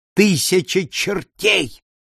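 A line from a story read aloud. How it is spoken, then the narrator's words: Sudden cry. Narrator (Russian): вскрикнул адвокат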